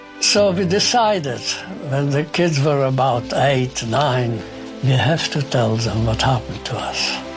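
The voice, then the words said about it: Speaks with a noticeable accent. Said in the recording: “why do you speak with a funny accent?”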